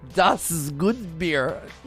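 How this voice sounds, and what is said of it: Put-on German accent. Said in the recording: “a German accent ... That was better than the accent”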